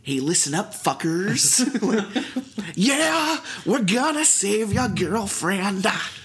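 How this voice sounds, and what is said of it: Imitates another person's voice. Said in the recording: “the Jack Black voice ... doing that voice”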